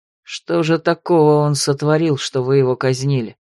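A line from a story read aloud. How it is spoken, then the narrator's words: Through gritted teeth. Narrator (Russian): процедил сквозь зубы Ролан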